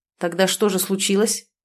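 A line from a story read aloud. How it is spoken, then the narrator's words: Grim smirk. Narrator (Russian): усмехнулся мрачно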